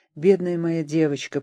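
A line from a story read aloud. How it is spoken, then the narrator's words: Murmured. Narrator (Russian): пробормотал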